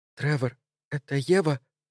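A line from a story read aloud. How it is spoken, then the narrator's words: Trembling whisper. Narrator (Russian): спросила Энн дрожащим шепотом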